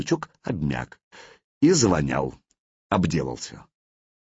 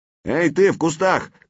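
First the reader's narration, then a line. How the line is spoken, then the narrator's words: Shout. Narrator (Russian): крикнул Славка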